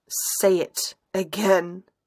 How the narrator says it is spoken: he growls

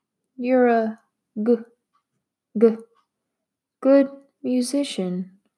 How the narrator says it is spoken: Felicia stammered, as though it hurt her to admit it

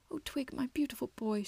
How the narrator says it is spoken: sobbed

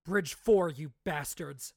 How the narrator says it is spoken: Moash growled

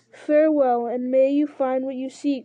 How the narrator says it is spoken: cried Eomer

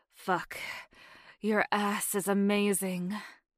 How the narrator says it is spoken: said breathlessly, taking a sharp inhale

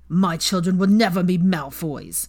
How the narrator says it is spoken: Weasley spat

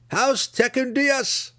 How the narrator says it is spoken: they shouted together

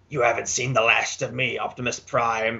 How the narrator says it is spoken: he snarls

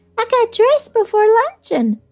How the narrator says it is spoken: said the child, turning eagerly to Daisy

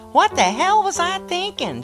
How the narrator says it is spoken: she cried

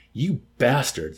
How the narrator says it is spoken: Ysarion exclaimed

